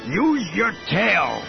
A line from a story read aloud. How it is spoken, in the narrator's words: he bellowed to her in Salonian